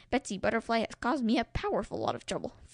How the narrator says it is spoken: Freddy grumbled

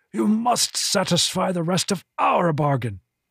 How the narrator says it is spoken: the Hargith rasped

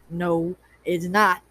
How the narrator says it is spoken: he said firmly

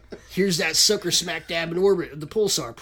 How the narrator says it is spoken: Preston exclaims excitedly

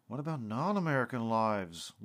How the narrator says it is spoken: Lucas slurred

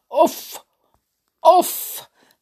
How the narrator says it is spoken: the queen croaked

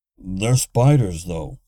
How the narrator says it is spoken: Bernie grunted

